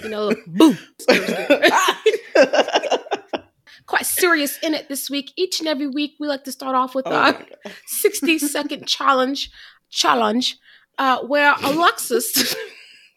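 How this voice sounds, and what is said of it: Awful put-on accent, all over the place. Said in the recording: “this accent's awful ... It's all over the place, girl.”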